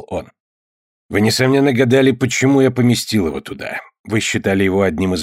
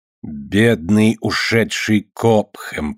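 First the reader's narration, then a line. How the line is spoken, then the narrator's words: Drawling. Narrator (Russian): протянул сатана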